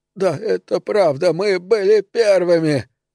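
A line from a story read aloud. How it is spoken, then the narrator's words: Sobbing, crying aloud. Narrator (Russian): Другой мужчина всхлипнул, потом зарыдал в голос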